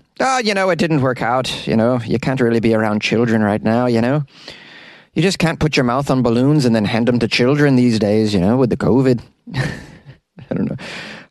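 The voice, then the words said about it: Poor put-on Irish accent. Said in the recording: “How's my Irish accent, guys? It's pitiful, I realize.”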